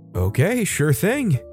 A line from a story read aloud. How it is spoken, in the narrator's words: happily reply